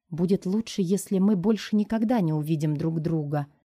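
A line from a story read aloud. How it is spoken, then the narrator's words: Whisper. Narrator (Russian): прошептала Уиллу я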